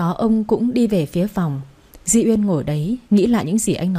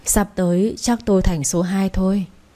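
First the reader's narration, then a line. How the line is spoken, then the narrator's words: Sighing, idle remark. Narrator (Vietnamese): Ông Phú thở dài nói vu vơ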